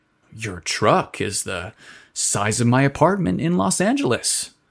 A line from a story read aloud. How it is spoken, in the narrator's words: Dawson exclaimed